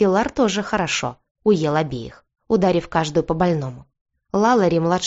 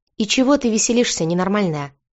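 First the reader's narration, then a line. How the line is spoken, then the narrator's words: Deceptively soft question. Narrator (Russian): обманчиво мягко поинтересовался Бьорн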